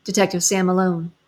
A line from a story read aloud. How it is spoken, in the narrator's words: said